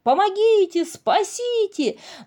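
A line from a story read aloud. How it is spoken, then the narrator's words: Shouted. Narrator (Russian): закричал бобр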